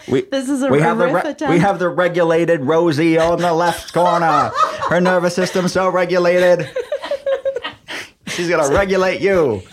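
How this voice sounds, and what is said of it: 1940s newsreel announcer accent. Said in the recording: “my 1940s newsy accent ... You've always had it.”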